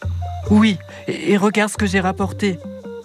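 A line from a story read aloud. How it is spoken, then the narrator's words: Excited exclaim. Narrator (French): s'écrie Isha très excitée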